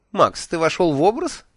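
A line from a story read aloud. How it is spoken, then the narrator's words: Mocking question. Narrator (Russian): насмешливо спросила Миламари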